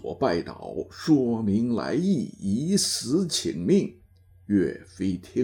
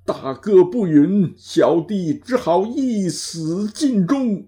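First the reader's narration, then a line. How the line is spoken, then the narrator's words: Tearful plea. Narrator (Chinese): 王佐哭诉道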